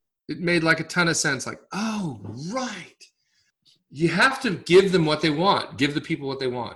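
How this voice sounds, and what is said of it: Usual voice. Nothing is said of it.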